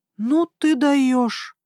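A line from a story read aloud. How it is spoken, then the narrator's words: Breathless young woman. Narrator (Russian): выдохнула девушка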